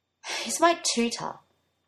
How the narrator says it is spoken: Arthur sighed loudly

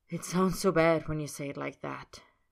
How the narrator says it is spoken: Roy says on a sigh

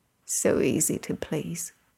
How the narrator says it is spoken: Arthur murmurs

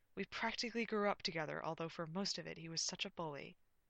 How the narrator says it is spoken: in a strained voice, she replied

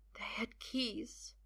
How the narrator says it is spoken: Merlin whispers finally

